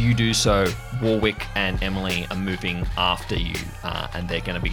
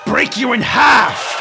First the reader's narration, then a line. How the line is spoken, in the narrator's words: shouts